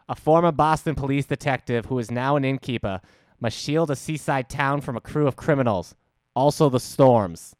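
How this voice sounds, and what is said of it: Put-on Boston accent. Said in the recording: “Could you do that with a Boston accent? ... Boston accent.”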